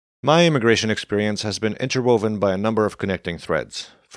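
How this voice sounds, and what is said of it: Foreign accent. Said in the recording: “a desire to be invisible as an immigrant, which of course my accent continues to betray”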